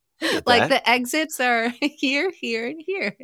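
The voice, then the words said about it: Flight attendant announcement voice. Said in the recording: “I slip into like a flight attendant voice”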